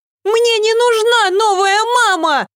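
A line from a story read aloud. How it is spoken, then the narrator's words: Shouted. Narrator (Russian): закричала Ева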